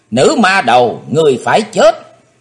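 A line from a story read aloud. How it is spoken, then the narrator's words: Shouted. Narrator (Vietnamese): theo tiếng hét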